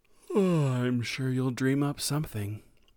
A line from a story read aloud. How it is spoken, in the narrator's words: Sam said with a yawn